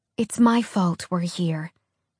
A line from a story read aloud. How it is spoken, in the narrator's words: Alex told her as quietly as she could